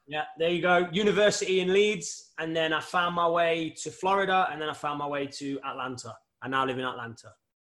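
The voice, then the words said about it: British English accent. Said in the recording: “I love the accent... that British accent”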